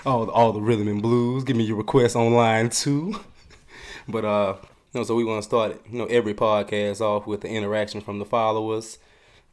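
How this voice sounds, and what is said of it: Hoarse voice like old radio DJ. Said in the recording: “excuse me and my voice. I've been battling Baton Rouge weather all week, and that's why I'm a little hoarse right now. I'm sounding like one of them old cats that be up on the radio.”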